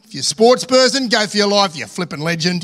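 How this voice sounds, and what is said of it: Exaggerated broad Australian accent. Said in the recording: “excuse the extreme Australian accent there. Try and be a little more cultured.”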